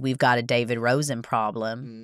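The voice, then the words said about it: Very bad accent imitating Hollis. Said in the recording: “That's the worst accent I've ever done in my entire life.”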